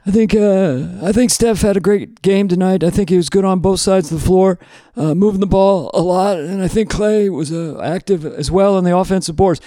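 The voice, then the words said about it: Imitates another person's voice. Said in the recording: “my impression of Steph Kerr, the coach of the Warriors ... It's almost Bill Clinton”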